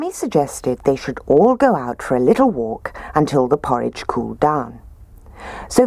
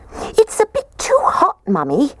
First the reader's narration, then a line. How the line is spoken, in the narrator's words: The little baby bear squeaked